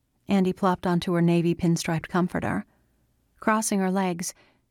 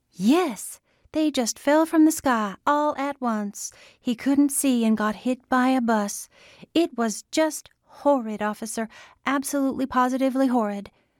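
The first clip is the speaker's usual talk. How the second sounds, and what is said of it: Slightly mangled Scarlett O'Hara accent. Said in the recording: “in a slightly mangled Scarlett O'Hara accent”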